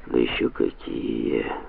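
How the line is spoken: Muttering. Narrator (Russian): пробормотал Санта-Мария

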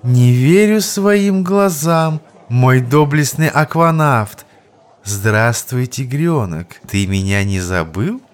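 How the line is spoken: Surprised, admiring, then purring. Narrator (Russian): Удивленное восклицание сменилось восхищением и, наконец, перешло в этакое мурлыканье кошки, только что навернувшей к рынку сметаны

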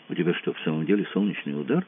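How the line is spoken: Whispered question. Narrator (Russian): шептом спросил Кацуба

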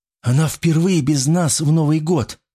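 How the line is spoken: Trembling objection. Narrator (Russian): возразила Вероника дрогнувшим голосом

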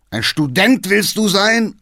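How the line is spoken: Old man shouting. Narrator (German): schrie der Alte

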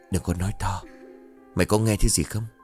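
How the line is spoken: Whispered. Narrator (Vietnamese): Hậu thì thầm

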